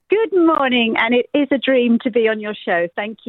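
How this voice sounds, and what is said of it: British English accent. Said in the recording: “from the UK... Can't you tell by my accent? I'm right by Windsor Castle.”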